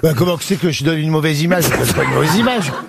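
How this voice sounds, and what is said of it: Put-on northern French regional accent. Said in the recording (French): “c'est pas en prenant un accent régional ... les ch'tis se plaignent, hein. Certains nous disent, vous donnez une mauvaise image de notre région. On parle pas de dire comme ça.”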